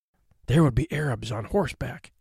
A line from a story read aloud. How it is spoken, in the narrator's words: he whispered